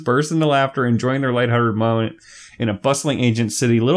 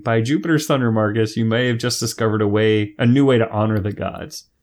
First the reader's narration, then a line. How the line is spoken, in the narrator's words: Titus couldn't help but chuckle, saying